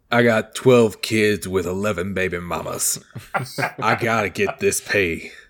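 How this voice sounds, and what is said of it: Put-on accent. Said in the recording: “I said I wasn't gonna do an accent, but apparently I just did it”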